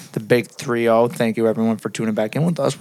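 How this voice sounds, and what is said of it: Hoarse, nearly lost voice. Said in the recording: “I don't know why I lost my voice for no reason”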